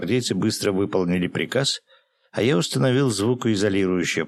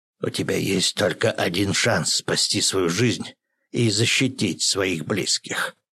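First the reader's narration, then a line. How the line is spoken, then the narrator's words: Menacing hiss. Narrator (Russian): с угрозой прошипел Юрин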